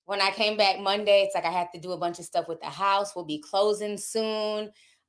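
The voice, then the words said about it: Sick, under-the-weather voice. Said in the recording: “You guys can hear it in my voice. I'm still a little bit under the weather.”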